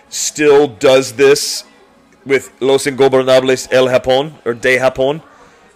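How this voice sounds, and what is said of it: Spanish-style pronunciation of Spanish names. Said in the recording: “You have a tremendous Hispanic accent.”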